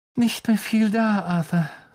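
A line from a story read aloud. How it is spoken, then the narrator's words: Sighing. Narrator (German): seufzte sie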